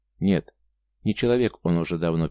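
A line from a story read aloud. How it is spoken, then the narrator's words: Sad, quiet man. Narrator (Russian): печально ответил молчун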